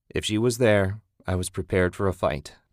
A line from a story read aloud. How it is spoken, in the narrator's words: Ted said